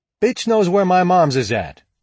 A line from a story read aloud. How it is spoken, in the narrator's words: he shouted to Pipe